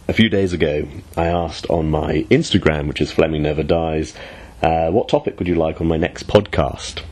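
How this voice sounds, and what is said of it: Sick, slightly strange-sounding voice. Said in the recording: “I've been sick rotten ... if my voice sounds a bit strange, then that's the reason why”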